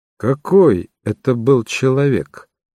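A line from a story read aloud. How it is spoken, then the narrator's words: Plain question. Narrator (Russian): спросил Шерлок Холмс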